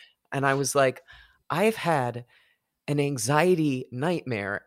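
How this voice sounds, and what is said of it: Usual voice. Nothing is said of it.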